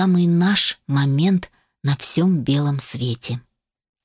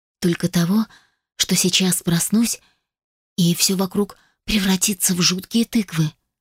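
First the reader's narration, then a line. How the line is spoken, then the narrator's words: Whispered confession. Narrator (Russian): призналась я шепотом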